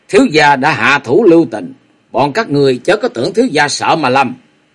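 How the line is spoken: Annoyed cold long laugh. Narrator (Vietnamese): không khỏi bực mình, chợt lạnh lùng cười dài một tiếng

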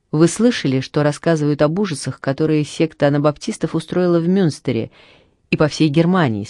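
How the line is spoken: Plain. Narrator (Russian): спросил я

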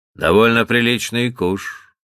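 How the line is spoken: Calm reply. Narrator (Russian): по-прежнему спокойно отвечал батлер

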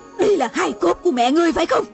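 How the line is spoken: Woman shouting. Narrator (Vietnamese): mụ la lên

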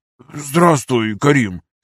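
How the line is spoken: Hoarse. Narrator (Russian): хрипло сказал он

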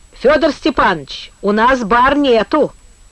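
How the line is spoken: Brash hoarse shout. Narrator (Russian): кричал он с наглой хрипотцой человека, знающего силу

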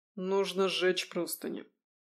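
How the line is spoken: Quiet speech. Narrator (Russian): тихо сказал лекарь

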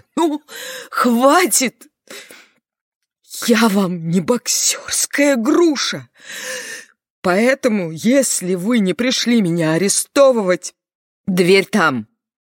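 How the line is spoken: Outraged sobbing shout. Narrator (Russian): захлебываясь от возмущения и всхлипов, она крикнула

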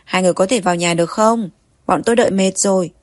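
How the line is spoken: Impatient shout. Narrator (Vietnamese): người vẫn đang đợi trong nhà lại mất kiên nhẫn hét lên

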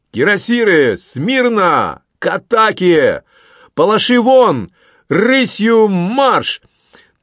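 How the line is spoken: Loud shout. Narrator (Russian): громко крикнул

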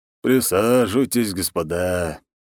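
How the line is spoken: Tired old man. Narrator (Russian): устало сказал пожилой мужчина

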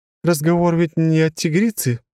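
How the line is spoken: Sudden laugh. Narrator (Russian): Вдруг рассмеялась она

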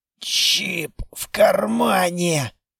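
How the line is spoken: Unrecognizable wheezing rasp. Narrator (Russian): просипел я и сам же не узнал собственный голос

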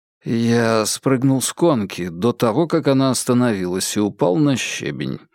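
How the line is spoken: Evasive mumble. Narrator (Russian): пробормотал, отводя взгляд

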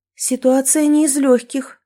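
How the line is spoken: Sighing agreement. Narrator (Russian): согласилась Кэти, вздохнув

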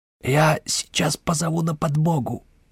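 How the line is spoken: Strangled hiss. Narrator (Russian): сдавленным голосом прошипел Леспех

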